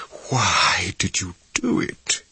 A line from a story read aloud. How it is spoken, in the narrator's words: he whispered